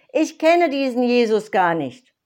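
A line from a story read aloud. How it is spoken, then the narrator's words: Calling out again. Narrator (German): rief noch einmal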